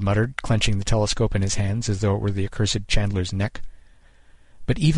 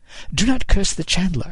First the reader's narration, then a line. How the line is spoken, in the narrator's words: he said, entirely too brightly